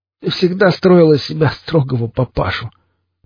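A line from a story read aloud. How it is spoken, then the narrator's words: Laughing out loud. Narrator (Russian): Друг засмеялся в голос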